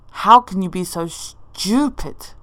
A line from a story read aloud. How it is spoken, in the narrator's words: He asks angrily